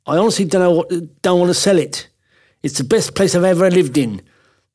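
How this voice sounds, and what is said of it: Put-on accent imitating a quoted speaker. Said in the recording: “I'll drop the accent”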